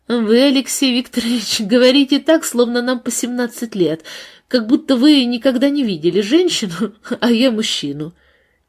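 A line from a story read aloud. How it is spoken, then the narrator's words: Laughing reply. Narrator (Russian): Она засмеялась и ответила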